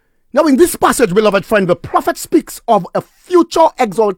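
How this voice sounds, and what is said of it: Usual voice. Nothing is said of it.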